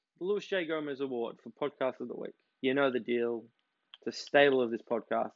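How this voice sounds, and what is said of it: Groggy just-woke-up voice. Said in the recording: “my really sexy voice. That doesn't at all sound like I just woke up.”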